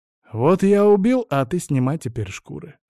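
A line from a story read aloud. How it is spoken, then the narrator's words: Plain. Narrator (Russian): ответил ему Вильд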